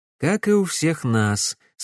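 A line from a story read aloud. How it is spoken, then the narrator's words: Plain. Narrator (Russian): сказал Алекс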